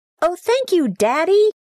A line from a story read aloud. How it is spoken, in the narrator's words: yelled